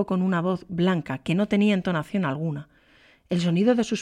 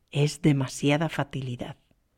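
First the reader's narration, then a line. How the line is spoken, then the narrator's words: Murmured again. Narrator (Spanish): murmuró otra vez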